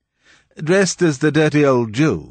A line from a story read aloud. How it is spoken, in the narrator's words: said gaily